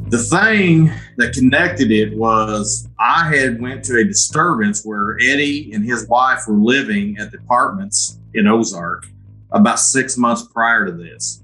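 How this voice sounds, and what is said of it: Southern Missouri accent. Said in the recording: “as you can tell from my accent, we're in Southern Missouri”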